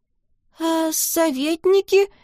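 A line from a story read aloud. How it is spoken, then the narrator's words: Timid old man. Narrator (Russian): робко подал голос старик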